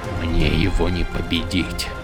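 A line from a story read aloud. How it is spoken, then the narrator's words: Tearful whisper. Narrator (Russian): Прошептал Каладин со слезами на глазах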